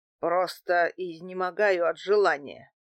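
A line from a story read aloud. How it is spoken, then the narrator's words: Displeased grumbling. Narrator (Russian): недовольно пробурчал Дмитрий Иванович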